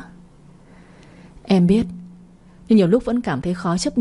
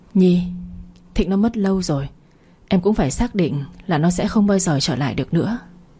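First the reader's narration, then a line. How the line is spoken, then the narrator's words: Heavy sigh. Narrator (Vietnamese): Phong nặng nề thở dài một hơi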